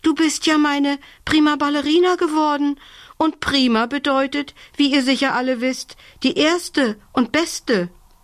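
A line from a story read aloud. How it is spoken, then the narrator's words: Gasping. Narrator (German): japste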